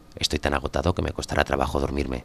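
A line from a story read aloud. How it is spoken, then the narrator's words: Plain. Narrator (Spanish): dijo al acostarse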